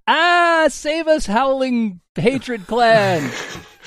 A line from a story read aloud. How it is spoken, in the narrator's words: screaming